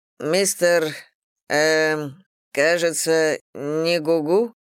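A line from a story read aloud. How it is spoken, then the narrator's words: Uncertain. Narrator (Russian): произнес он неуверенно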